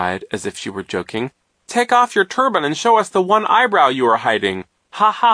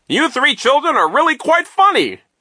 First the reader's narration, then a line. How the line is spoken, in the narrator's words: Nero cried